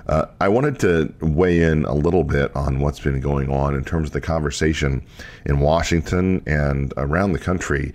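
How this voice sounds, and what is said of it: Sick, under-the-weather voice. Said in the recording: “I'm a little under the weather ... various illnesses ... my voice sounds a little different than normal”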